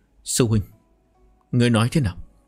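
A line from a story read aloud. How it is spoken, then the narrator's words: Trembling with rage. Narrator (Vietnamese): Đào Tâm Di lửa giận công tâm, run rẩy nói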